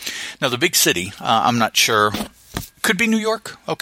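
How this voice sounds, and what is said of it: Usual voice. Nothing is said of it.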